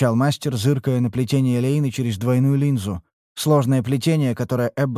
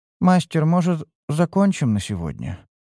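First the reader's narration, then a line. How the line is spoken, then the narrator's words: Sleepy. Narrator (Russian): сонно проговорила Эббот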